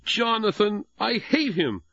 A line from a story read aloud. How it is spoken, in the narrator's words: Jesse blurted out